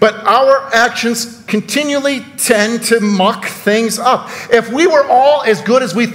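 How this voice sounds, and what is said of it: Usual voice. Nothing is said of it.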